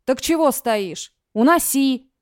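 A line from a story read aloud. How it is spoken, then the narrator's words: Dark-haired man barking. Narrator (Russian): рявкнул темноволосый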